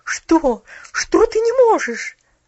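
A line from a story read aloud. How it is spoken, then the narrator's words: Incredulous exclamation. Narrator (Russian): воскликнула миссис Керю, как будто сомневаясь в том, что ее уши слышат правильно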